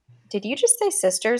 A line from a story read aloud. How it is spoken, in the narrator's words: I asked